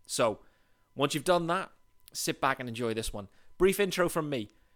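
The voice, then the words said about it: British English accent. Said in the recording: “What is that accent? First and foremost, the accent. Yes, I'm British. I live in Leeds, in England.”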